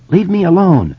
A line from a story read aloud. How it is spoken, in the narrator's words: Eddie said in a trembling voice